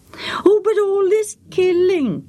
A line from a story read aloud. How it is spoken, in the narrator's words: Jachin moaned again